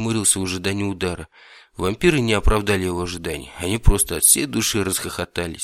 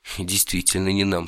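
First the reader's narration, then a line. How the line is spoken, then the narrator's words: Said through laughter. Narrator (Russian): сквозь смех сказал Кельмир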